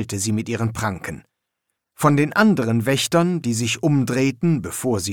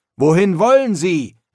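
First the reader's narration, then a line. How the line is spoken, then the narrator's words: Calling out. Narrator (German): rief Marco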